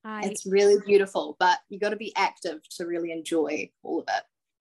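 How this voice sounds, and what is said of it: New Zealand accent. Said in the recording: “If you couldn't tell by the accent ... Not Australian, New Zealand.”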